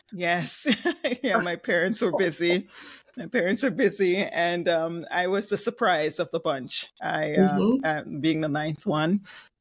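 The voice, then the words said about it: Jamaican accent. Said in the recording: “you'll hear it come out. Maybe my accent. I'm originally from Jamaica”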